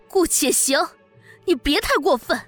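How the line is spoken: Angry roar. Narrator (Chinese): 我对他怒吼

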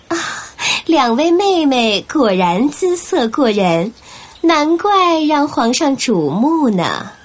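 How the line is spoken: Smiling. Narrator (Chinese): 华妃笑吟吟地

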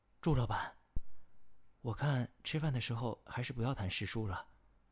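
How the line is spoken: Exasperated sigh. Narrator (Chinese): 包荣实在是听不下去了，无奈地叹了口气

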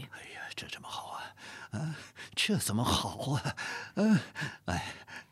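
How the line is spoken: Anxious mumbling. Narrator (Chinese): 讷亲口中喃喃耳语

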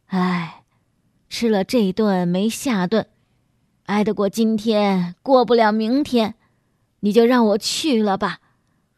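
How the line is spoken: Sighing. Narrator (Chinese): 叹口气说

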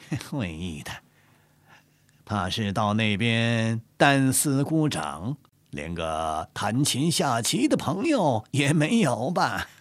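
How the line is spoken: Laughing. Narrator (Chinese): 纪云笑着说

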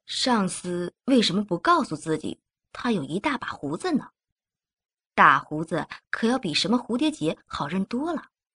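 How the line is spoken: Inner muttering. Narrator (Chinese): 德加心里嘟囔着

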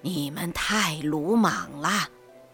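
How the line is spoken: Sighing. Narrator (Chinese): 季凤志 缓缓走进齐湛，叹道

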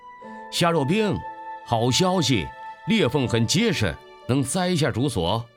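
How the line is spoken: Excited call. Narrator (Chinese): 这个发现让汪兴国有些兴奋，他叫道

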